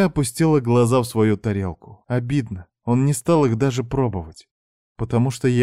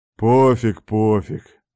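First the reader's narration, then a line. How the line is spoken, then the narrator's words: Grumbling. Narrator (Russian): заворчал отец Рома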